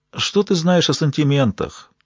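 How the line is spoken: Calm old man. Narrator (Russian): Спокойно продолжал старик

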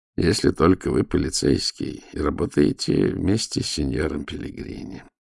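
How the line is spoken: Glum remark. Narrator (Russian): уныло заметил голос

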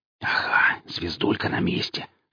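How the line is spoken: Whispered. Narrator (Russian): шептал голос

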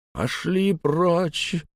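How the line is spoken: Old man's whimper. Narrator (Russian): проскулил старик

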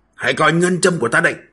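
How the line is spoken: Loud shout. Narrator (Vietnamese): Thang Bái lớn tiếng quát

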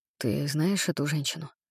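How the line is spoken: Whispered question. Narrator (Russian): спросил я шепотом

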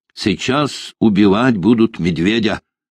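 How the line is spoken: Plain. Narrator (Russian): сказал хурх

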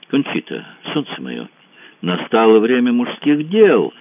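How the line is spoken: Exclaimed with slight irony. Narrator (Russian): воскликнула она с легонькой иронией

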